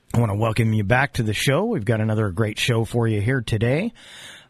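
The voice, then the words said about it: Voice sounding sick. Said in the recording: “If you can't tell from my voice, I'm a little under the weather”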